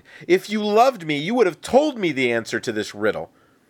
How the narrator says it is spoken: cried

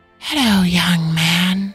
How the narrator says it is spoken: hissed

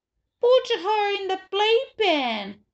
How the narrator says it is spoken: Fudge wailed

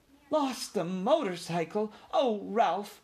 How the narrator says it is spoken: cried his mother, genuinely alarmed

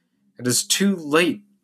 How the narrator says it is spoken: cried Douglas Stone peevishly

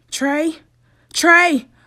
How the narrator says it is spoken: a voice cried out from the hall

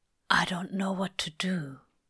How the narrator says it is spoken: Crowley whispers

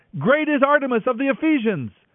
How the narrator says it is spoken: their anger boiled, and they began shouting

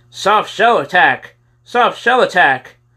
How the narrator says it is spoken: they always yelled

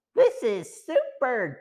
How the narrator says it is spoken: Joe exclaimed

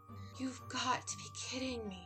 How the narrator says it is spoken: I whispered to myself, rushing frantically

